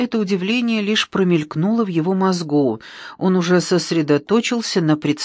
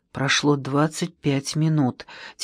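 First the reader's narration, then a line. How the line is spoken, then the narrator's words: Quiet. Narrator (Russian): тихо сказал Первушин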